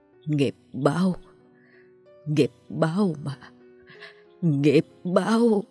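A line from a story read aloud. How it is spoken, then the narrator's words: Old woman, tearful muttering. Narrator (Vietnamese): Nước mắt nóng hổi trào ra, miệng bà lẩm bẩm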